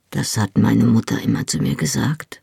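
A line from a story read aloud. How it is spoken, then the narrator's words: Muttered. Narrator (German): murmelte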